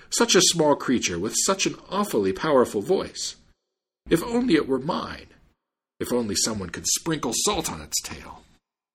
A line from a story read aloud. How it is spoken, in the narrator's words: the Jew exclaimed